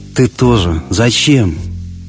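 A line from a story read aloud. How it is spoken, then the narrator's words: Tearful whisper. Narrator (Russian): прошептала она и беззвучно заплакала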